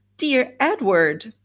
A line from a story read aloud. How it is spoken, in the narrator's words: she cried